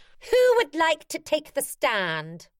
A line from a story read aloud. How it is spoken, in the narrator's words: the Queen, who is Laura Harling suspended 3 metres above the ground, shouts out